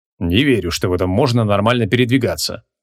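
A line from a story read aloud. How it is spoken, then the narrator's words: Gruff mutter. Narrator (Russian): буркнул креол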